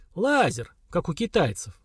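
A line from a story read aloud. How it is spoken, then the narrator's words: Thoughtful. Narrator (Russian): задумчиво сказал Слава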